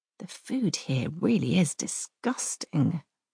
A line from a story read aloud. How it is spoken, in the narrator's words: I say in an undertone